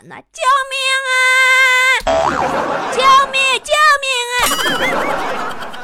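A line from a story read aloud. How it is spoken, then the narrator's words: Child shouting. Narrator (Chinese): 这熊孩子对窗外警察大喊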